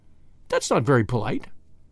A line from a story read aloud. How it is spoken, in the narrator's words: replied Tuppence